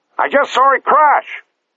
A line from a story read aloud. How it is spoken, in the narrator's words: the commander shouted down to the engine room